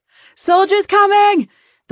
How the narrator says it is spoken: the woman shouted as she ran

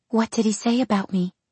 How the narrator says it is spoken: She asked in a small voice

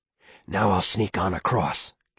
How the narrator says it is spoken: Chet whispered

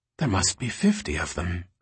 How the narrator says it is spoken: Alicia whispered

